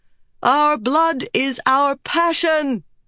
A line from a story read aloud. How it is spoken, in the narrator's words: she shouted